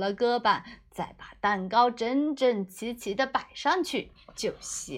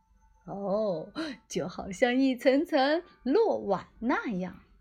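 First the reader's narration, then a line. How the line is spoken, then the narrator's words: Smiling mutter. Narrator (Chinese): 厨师才笑眯眯的嘀咕道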